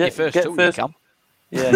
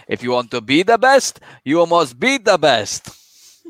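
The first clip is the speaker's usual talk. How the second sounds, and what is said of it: Put-on accent. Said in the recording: “We'll ignore the accent there”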